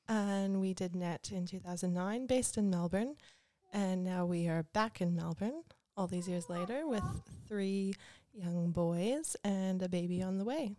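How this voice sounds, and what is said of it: Canadian accent. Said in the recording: “in case you haven't noticed my accent, I am Canadian”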